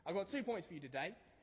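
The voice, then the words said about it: Put-on Australian accent. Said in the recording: “Sorry about the Australian accent, it only works if I go with this.”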